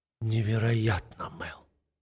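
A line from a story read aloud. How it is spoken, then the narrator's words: Whispered. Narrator (Russian): шепчу я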